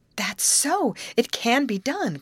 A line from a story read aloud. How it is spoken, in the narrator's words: cried Betty